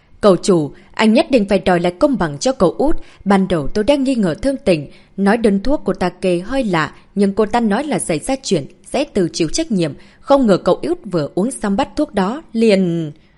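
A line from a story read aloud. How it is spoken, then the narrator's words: Loud. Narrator (Vietnamese): hắn lớn tiếng nói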